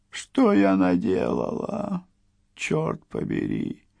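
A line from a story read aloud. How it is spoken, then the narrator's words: Trembling moan. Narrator (Russian): простонала дрожащая Уэллис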